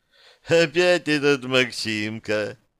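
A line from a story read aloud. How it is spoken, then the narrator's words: Ringing laugh, woman. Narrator (Russian): звонко рассмеялась женщина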